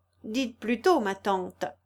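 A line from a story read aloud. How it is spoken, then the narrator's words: Exclaimed. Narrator (French): s'écria Amélie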